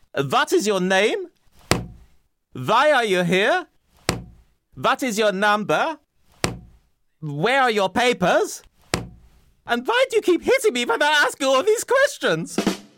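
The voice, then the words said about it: Fake exaggerated German accent. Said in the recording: “My cod German accent”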